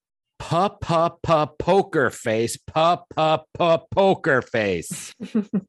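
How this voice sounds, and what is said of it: Singing impression of the artist. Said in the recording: “I did a pretty good impression.”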